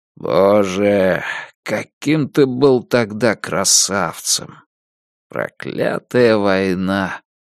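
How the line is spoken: Quiet. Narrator (Russian): тихо произнес Дилейни

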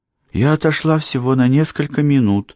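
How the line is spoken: Timid reply. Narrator (Russian): робко ответила ей мисс Софи Уорри

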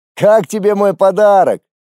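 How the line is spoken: Snide voice from screen. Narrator (Russian): ехидно вещала наглая рожа с экрана

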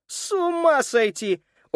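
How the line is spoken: Loud laughter into hiccups. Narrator (Russian): так громко расхохотался, что его одолела икота

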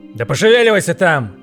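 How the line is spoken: Father barked. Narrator (Russian): гаркнул отец

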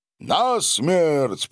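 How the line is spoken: Nearly shouting. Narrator (Russian): почти выкрикнул граф Савва

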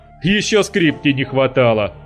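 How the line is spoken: Joker's mocking snort. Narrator (Russian): хмыкнул какой-то шутник

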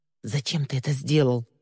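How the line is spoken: Through gritted teeth. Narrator (Russian): процедила она в пустое пространство

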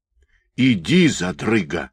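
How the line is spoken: Hiss. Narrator (Russian): прошипел Харченко

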